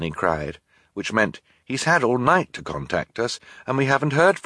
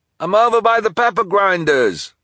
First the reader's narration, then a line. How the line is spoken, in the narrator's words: the delivery person called out in return